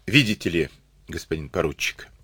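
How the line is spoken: Calm reply. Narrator (Russian): спокойно ответил

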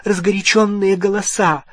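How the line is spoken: Breathed out. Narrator (Russian): выдохнула миссис Уизли

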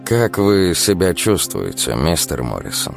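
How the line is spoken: Plain. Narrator (Russian): я спросил

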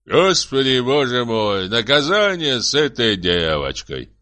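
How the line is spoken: Loud and angry. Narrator (Russian): проговорил громко Сысой, рассердившись

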